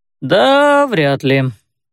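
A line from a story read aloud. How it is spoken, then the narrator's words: Drawling. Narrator (Russian): протянул Раджер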